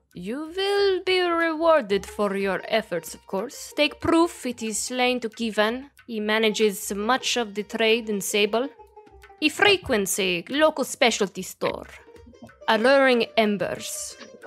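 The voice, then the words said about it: Thick put-on accent. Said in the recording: “your accent's a little thick.”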